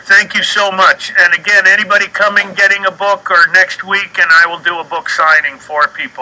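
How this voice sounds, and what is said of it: Excited, energetic voice. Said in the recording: “you can hear it in my voice. I'm like just jazzed.”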